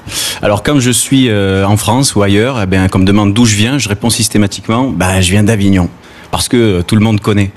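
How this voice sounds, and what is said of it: Southern French accent from Gard. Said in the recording (French): “vous l'entendez certainement, je suis d'ici ... j'ai l'accent du Sud ... tu as l'accent du Gard”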